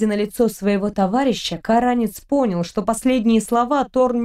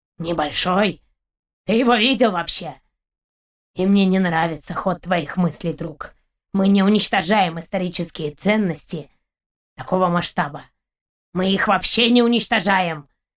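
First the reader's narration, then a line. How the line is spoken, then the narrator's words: Dog growling. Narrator (Russian): рыкнул пес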